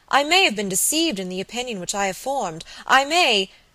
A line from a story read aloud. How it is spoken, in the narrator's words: she exclaimed